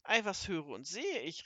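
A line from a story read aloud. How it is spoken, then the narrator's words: Called out. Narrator (German): rief er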